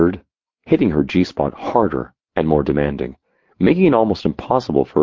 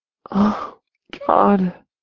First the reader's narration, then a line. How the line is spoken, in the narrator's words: she panted